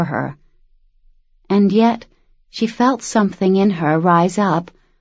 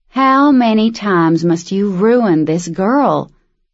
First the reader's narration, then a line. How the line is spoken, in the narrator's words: Luce heard the sad southern drawl